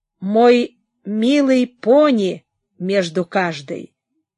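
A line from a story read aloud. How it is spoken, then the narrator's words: Plain. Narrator (Russian): сказала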